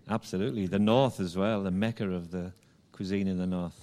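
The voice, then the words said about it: English accent, not Jamaican. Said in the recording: “with that accent, you're not Jamaican... originally from England”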